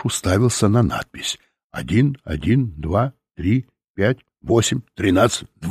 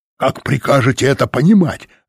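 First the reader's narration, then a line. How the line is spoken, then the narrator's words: Bark. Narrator (Russian): рявкнул он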